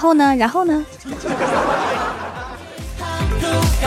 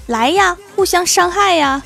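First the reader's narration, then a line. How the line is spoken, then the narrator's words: Roaring. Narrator (Chinese): 我都会大吼一声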